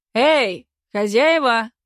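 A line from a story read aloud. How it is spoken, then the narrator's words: Shouting. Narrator (Russian): крикнул Никита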